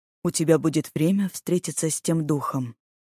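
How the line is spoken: Young man, calm. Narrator (Russian): Парень спокойно сказал

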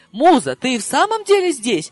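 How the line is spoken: Amazed exclamation. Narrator (Russian): изумленно воскликнул Ришард

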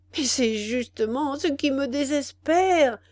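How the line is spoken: Mournful voice. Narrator (French): dit Béninus d'une voix lamentable

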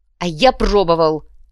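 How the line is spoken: Barking. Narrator (Russian): рявкнул Недрак

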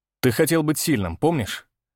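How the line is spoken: Stern tone. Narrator (Russian): Начал я строгим тоном

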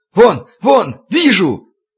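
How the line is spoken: Shouting. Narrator (Russian): завопил стрелок с востока

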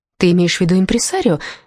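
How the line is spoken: Cheerful chirp. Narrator (Russian): весело чирикнула я

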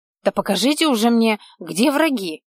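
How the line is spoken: Hissed through teeth. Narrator (Russian): прошипел тот сквозь зубы

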